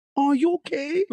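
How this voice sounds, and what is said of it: Very high-pitched concerned voice. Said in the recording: “your voice changes? ... my voice went so high pitched ... the highest voice ... octaves go up”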